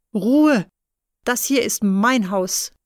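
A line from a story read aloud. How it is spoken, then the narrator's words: Grandfather shouting. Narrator (German): ruft Opa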